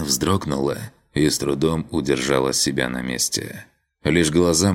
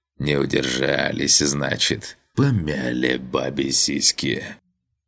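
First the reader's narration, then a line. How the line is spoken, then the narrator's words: Hoarse rasp. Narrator (Russian): обгоревший труп прохрипел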